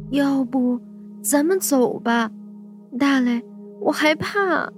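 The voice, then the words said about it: Quiet, tearful voice. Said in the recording (Chinese): “带着哭腔， ... 小声的说”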